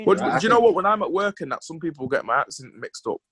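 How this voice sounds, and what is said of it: Manchester English accent. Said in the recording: “Manchester? ... you sound really mank”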